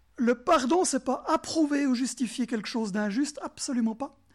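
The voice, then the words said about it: Swiss French regional accent. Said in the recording (French): “Il est beau mon accent. ... Quelqu'un m'a dit avant que j'avais un bel accent du Jura bernois.”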